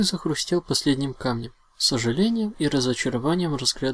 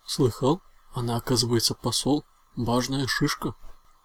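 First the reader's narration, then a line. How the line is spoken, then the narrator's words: Whisper. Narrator (Russian): шепнул дракончику Рапидус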